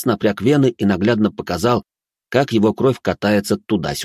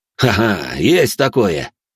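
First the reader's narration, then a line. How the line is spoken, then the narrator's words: Short laugh. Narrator (Russian): хохотнул он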